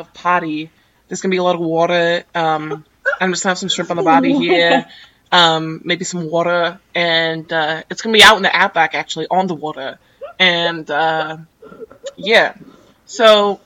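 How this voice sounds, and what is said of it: Put-on Australian accent. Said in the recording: “your Australian party? ... I should have introduced myself in an accent.”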